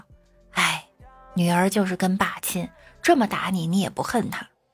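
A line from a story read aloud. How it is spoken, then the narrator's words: Sighing mother. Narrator (Chinese): 老妈感叹道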